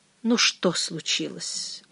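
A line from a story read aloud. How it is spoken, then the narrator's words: Weary question. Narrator (Russian): устало спросила она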